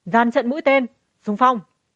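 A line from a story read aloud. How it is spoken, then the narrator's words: Relieved shout. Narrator (Vietnamese): thở phào nhẹ nhõm, gã ngẩng đầu la lên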